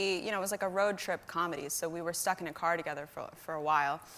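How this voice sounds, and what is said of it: Usual voice. Nothing is said of it.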